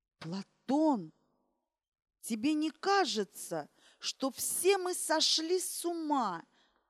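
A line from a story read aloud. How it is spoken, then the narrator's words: Quiet question. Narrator (Russian): тихо спросила Ирина Александровна капитана Вегова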